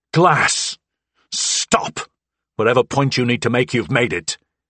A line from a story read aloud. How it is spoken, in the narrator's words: bellowed